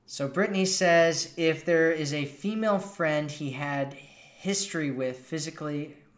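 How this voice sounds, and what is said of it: American accent. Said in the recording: “I love your American accent ... I'm glad you like my American accent.”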